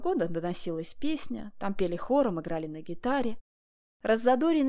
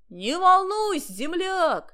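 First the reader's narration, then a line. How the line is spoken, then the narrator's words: Shouting back. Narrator (Russian): кричал в ответ Аким Ильич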